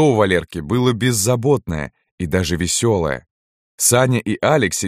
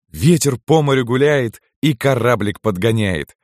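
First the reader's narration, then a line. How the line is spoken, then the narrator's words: Cheerful. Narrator (Russian): весело сказал Кирилл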